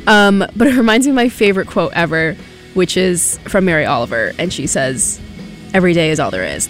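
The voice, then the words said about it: Congested, stuffy-nosed voice. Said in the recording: “I feel like I sound so congested right now. It's that time of year.”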